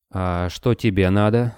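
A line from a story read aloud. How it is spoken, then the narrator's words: Tired question. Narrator (Russian): устало спросил Борода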